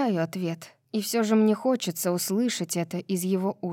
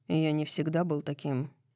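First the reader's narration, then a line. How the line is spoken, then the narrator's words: Soft speech. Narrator (Russian): мягко произносит он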